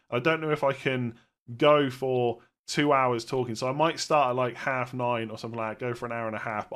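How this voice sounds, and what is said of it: Sick-sounding voice. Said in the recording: “I've been pretty ill this week. You probably hear it in my voice.”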